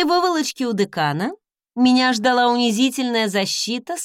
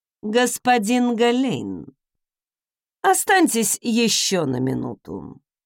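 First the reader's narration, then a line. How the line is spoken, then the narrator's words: Dry request. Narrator (Russian): сухо попросила госпожа Тарт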